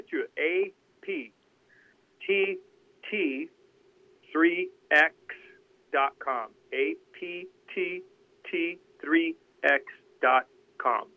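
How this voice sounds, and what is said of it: Very slow, deliberate speech. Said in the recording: “I'll say it very slowly”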